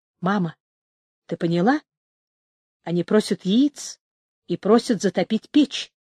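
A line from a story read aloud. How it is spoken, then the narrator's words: Whisper. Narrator (Russian): шепотом сказала Люся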